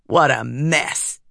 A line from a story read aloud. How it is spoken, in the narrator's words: Tin growled